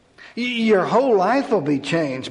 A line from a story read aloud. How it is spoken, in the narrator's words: Bobby blurted out